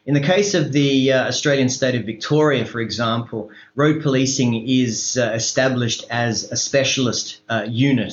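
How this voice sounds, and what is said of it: Australian English accent. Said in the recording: “In case you can't tell from my accent, I am from Australia”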